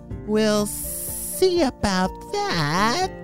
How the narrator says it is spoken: hissed in response

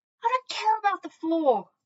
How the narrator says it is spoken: I yelled

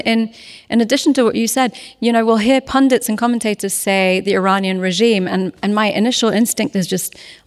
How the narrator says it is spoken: I gasped

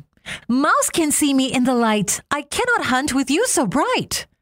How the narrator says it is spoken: she called out to Sun

